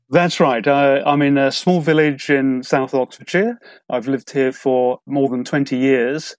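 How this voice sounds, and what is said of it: British English accent. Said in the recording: “pronounces English like it should, with the real lovely British accent.”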